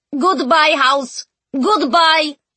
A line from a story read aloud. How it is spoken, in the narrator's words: they yelled